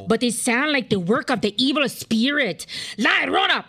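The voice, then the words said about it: Put-on Spanish accent. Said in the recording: “can you do a Spanish accent?”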